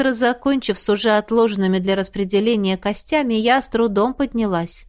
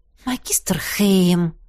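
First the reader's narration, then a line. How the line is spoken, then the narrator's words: Offended, drawn-out whine. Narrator (Russian): обиженно протянула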